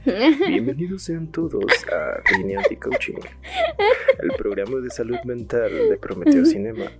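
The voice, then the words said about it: Radio announcer voice. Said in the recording (Spanish): “a ver si se hace mi voz de locutor”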